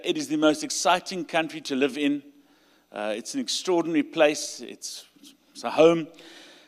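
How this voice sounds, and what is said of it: South African accent. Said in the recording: “You'll hear by my accent. I'm from South Africa.”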